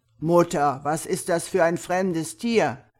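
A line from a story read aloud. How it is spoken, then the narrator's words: Eldest son calling out. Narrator (German): der Älteste von den Söhnen ihn sah, rief er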